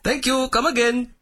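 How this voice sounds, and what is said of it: Bad put-on Indian accent as Apu. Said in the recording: “Apu, the Indian immigrant Quickie Mart owner ... voiced by Hank Azaria, a white man doing a bad Indian accent.”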